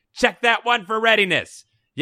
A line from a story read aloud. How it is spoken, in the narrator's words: A voice on the other side of the laboratory shouts